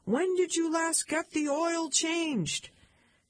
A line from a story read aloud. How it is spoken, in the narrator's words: Chuck screamed